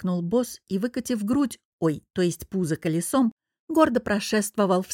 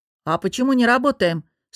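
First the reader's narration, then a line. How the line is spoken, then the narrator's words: Grumbling, suppressing a smile. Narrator (Russian): с трудом сдерживая улыбку, проворчала я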